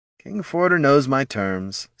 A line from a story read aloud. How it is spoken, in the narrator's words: sighed Handor